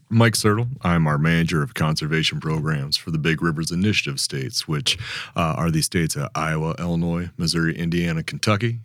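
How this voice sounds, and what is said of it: Calm, comforting radio voice. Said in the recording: “you have a calm, comfort, comforting radio voice”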